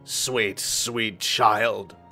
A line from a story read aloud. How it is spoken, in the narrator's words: it said to me in a croaking, inhuman voice